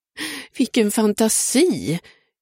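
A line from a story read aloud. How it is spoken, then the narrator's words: Exclaiming. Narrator (Swedish): utbrast hon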